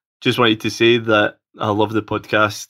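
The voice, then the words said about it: Scottish accent. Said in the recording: “coming to you all the way from sunny Scotland, so I apologise if you can't understand my dulcet accent.”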